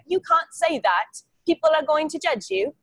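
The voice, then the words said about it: Put-on British London accent. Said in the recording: “British woman who hails from London ... You got a pretty good accent though.”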